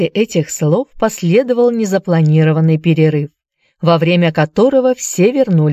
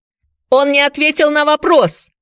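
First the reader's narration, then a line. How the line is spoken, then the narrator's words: Shouted. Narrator (Russian): закричал Дадли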